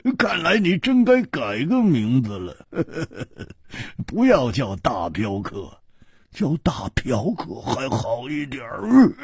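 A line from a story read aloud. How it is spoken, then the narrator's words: Hearty laugh. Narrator (Chinese): 胡铁花哈哈一笑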